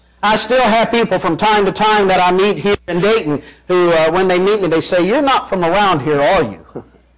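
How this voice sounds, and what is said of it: Arkansas Southern rural accent. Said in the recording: “I don't sound like someone raised in Ohio, and I don't sound like a transplant from Kentucky either. I've got a completely different redneck hick voice ... it's Arkansas is where it's from”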